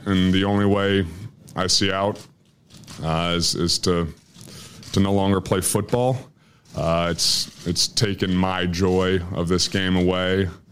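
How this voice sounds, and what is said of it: Choked up, emotional voice. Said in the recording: “he's getting choked up a little bit there”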